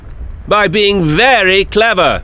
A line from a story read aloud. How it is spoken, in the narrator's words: shouted the doctor